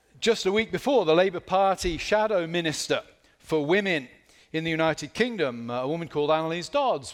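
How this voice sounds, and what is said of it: British accent. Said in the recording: “back in my homeland, you may tell from my accent, I'm not from Camden, New Jersey”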